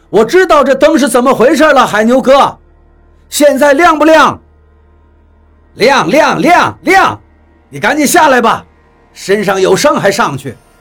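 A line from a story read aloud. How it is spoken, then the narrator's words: Annoyed shouting. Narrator (Chinese): 李海牛不满地向上面喊了一句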